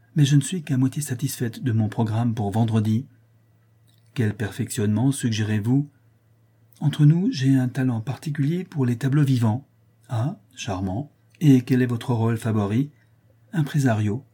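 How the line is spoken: Decisive tone. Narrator (French): dit Madame Guy d'un ton décidé

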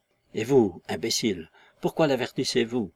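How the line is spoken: Sly man whispering. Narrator (French): reprit tout bas un rusé petit Yankee

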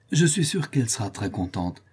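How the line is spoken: Exclaiming. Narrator (French): s'écria Sébastien

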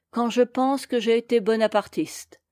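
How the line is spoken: Shouting. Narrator (French): il cria

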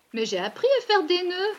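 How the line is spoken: Child exclaiming. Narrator (French): s'écria l'enfant

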